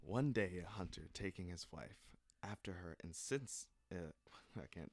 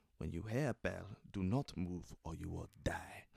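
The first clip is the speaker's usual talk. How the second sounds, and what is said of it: Put-on African accent for character. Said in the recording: “I'm going to do it in my best African accent ... I'm not going to do the whole thing in African accent ... When I'm playing a character, you'll hear. You'll hear the accent.”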